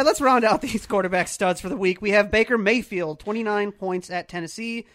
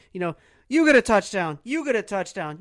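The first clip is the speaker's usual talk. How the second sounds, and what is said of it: Oprah impression. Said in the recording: “doing his best Oprah impersonation”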